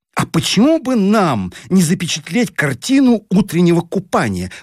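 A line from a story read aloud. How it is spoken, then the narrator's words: Exclaiming. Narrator (Russian): воскликнула Таня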